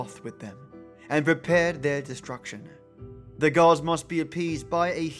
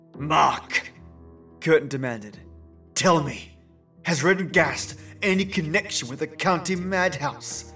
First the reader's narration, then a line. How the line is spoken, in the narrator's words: He gasped